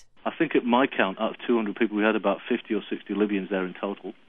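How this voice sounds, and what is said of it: British accent. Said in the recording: “I'm still a Brit. I live in Australia, but because of my accent and being a Brit”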